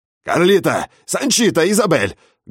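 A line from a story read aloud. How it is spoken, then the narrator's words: Loud bellow. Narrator (Russian): гаркнул он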